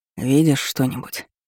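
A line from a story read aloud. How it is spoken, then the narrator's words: Whispering. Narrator (Russian): Калиб шептал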